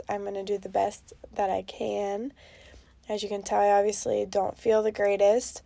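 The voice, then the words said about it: Sick-sounding voice. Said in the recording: “apologize for my voice... I found out today that I do have COVID”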